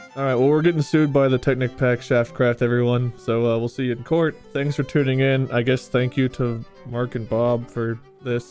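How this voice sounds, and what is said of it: Sad, dejected tone. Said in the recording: “Why do you sound so sad?”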